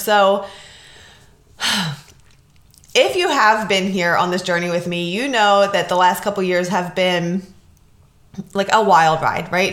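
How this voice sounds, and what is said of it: Slightly raspy voice. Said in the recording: “I am getting over a cold still... My voice is a little raspy”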